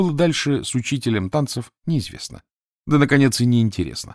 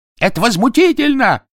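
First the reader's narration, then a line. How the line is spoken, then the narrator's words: Shopkeeper yelling. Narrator (Russian): вопил продавец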